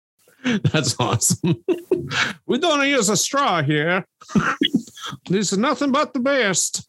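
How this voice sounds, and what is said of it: Bad exaggerated Italian accent. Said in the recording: “the worst racist Italian accent I've ever heard. Geppetto. This side of Mario from Mario from Super Mario Bros.”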